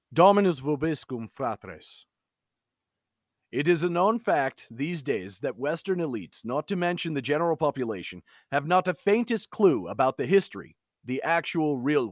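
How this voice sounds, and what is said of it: Put-on Slavic accent. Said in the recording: “I'm going to read this in generally a Slavic accent ... a voice that somewhat sounded like his”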